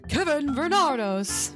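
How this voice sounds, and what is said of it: Announcer voice. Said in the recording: “Is that a good announcer voice?”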